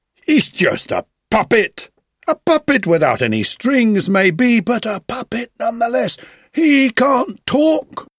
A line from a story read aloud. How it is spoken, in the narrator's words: they cried